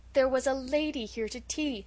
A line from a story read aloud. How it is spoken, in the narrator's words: said Felicity miserably